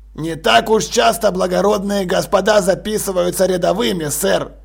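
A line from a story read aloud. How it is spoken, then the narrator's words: Muttering sergeant. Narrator (Russian): пробормотал сержант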